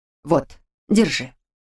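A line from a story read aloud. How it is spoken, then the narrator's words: Quiet command. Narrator (Russian): тихо велела она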